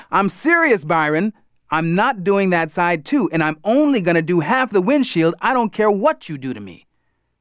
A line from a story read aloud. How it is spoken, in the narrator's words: I didn't hear any sound coming from the other side of the car, so I yelled out